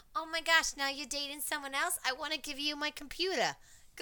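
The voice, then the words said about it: Put-on Long Island girl accent. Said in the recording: “the accent, oh God. ... some bitch from like five towns to like Hewlett on Long Island”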